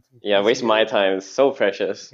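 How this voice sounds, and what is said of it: Sarcastic tone. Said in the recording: “That was sarcastic,”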